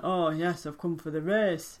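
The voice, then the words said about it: Put-on accent, done well. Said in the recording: “You're so good at accents.”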